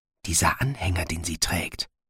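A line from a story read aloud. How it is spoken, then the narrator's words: Whispered. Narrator (German): flüsterte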